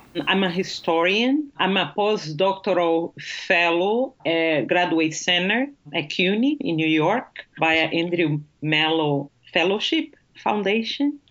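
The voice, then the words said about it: Brazilian Portuguese accent. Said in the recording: “your lovely accent that you are from Brazil ... a Portuguese accent ... It's just lovely.”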